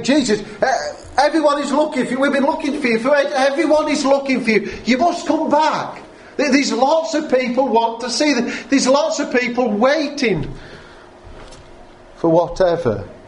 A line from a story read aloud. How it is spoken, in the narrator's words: they exclaimed